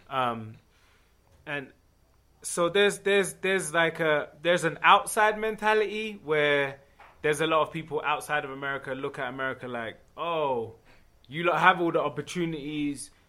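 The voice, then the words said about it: English accent. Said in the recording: “I'm from England, but I got an accent”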